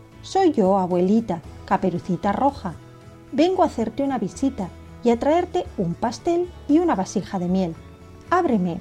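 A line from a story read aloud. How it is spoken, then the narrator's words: Plain. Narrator (Spanish): respondió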